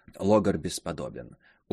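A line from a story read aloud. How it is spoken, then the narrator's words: Smiling whisper. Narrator (Russian): улыбаясь, прошептал Верлак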